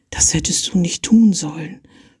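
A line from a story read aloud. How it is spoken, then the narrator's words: Whisper. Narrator (German): flüsterte sie ihm zu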